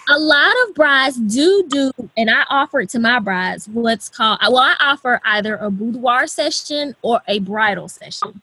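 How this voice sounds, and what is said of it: Southern American twang. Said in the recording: “here in the South, I don't know if you heard my twang come out”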